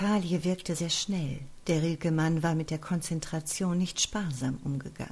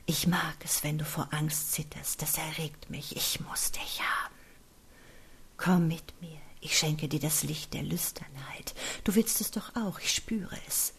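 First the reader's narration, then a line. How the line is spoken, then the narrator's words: Breathy whisper in ear. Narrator (German): hauchte in sein Ohr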